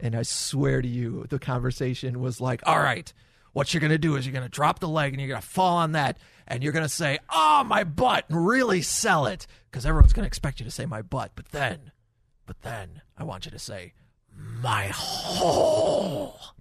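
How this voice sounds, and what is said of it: Vince McMahon impression. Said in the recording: “my Vince McMahon impression.”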